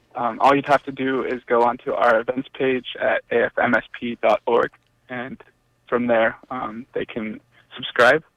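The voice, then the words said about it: French accent. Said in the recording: “What is your wonderful accent? ... Your French accent?”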